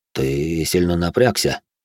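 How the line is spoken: Calm explanation. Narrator (Russian): спокойно пояснил Кейр

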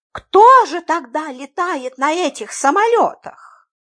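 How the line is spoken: Helpless exclamation. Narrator (Russian): Беспомощно воскликнула мисс Фридлендер

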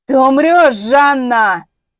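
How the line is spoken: Yelled. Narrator (Russian): заорал председатель

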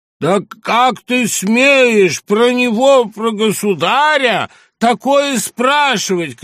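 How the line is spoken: Old woman shouting. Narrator (Russian): крикнула старуха

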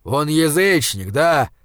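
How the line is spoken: Growling. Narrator (Russian): зарычал Изгримнур

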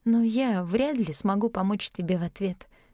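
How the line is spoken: Sighing. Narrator (Russian): вздохнула я

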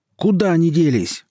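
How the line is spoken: Yelling. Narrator (Russian): орал Татка, подручный убитого вепря

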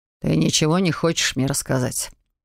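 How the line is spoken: Ominous question. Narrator (Russian): Зловещим тоном поинтересовался Оливер

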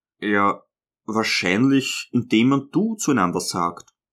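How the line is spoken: Hesitant. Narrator (German): sagte er endlich zögernd

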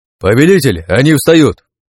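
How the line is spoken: Shouted. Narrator (Russian): крикнул Назар

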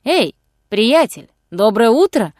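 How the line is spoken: Loud hailing call. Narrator (Russian): окликнул его громким голосом Робин Гуд

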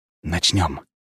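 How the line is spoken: Whisper. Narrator (Russian): прошептал я

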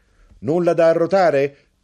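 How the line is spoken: Shouted. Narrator (Italian): gridò

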